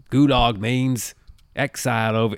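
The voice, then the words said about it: Bad put-on Australian accent. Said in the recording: “That's a horrible Australian accent.”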